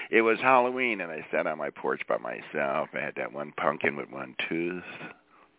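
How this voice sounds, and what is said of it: Usual voice. Nothing is said of it.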